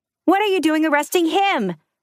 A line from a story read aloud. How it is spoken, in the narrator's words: Someone shouted from the crowd